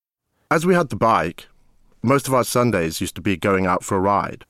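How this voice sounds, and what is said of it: British accent. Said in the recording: “my British sensibilities ... the British accent”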